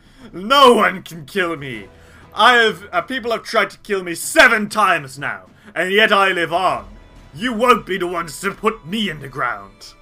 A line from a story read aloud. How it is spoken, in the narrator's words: Mycos the Unkillable lets out a bellowing